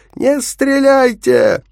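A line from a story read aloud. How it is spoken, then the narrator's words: Hoarse shout. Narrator (Russian): хрипло крикнул я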